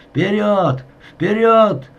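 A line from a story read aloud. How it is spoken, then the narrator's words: Officer shouting while running. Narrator (Russian): кричал лейтенант, нагоняя цепочку бойцов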